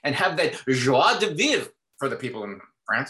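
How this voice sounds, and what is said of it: Poor attempt at French pronunciation. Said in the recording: “Sorry, my accent's horrible.”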